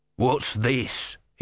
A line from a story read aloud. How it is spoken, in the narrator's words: he snarled